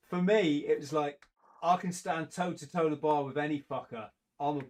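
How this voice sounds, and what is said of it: Usual voice. Nothing is said of it.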